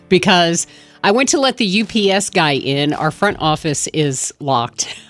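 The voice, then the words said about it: Slightly out of breath. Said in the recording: “I'm a little out of breath”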